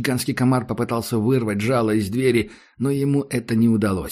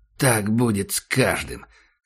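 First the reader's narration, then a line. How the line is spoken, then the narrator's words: Hoarse. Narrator (Russian): сказал Ахмед хрипло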